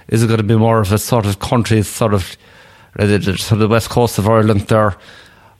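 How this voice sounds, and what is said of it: Put-on rural Irish accent. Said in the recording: “what kind of of Irish accent ... So I took you on a little tour of Ireland there. ... That was actually quite good”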